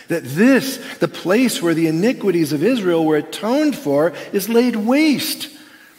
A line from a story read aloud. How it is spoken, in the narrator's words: Rabbi Joshua cried